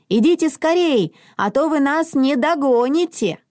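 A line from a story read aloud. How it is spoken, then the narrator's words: Shouting while moving. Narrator (Russian): На ходу Мона крикнула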